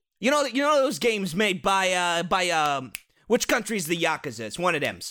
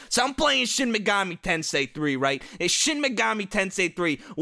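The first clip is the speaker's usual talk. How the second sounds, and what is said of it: Mobster-style gangster voice. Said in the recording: “talking like a fucking Sopranos character”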